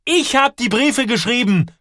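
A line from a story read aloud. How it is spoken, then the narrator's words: Shouting. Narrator (German): schreit Joel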